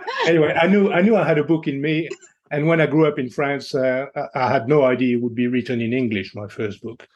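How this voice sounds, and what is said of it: French accent. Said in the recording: “a Frenchman with such a gorgeous accent”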